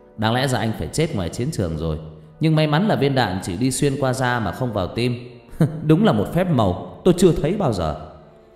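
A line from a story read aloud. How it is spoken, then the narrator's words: Hearty laughter. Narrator (Vietnamese): Vị bác sĩ cười lớn rồi nói thêm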